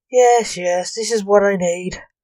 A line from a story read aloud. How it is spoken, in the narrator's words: Lance said sarcastically